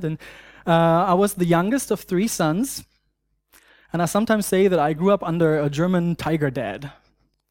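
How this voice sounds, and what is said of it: German accent. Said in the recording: “I grew up in Germany. Some of you know, some are here through my accent.”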